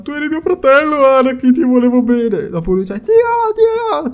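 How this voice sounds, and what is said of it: Poor imitation of film dub voices. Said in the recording (Italian): “ho fatto un'imitazione di merda, lo so, è orrenda. Potrei fare di meglio”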